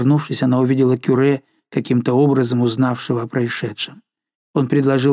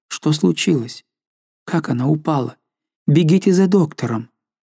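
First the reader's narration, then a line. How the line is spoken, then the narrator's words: Confused questioning. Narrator (Russian): Жанна растерянно спрашивала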